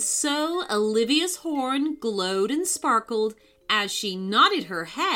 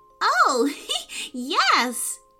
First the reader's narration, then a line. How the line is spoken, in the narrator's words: giggled Jojo